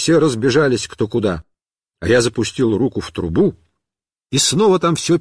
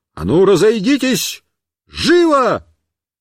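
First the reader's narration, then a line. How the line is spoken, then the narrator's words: Shout. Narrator (Russian): Я им крикнул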